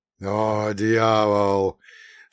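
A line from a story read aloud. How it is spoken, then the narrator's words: Groaning. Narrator (Russian): простонал эсэсовец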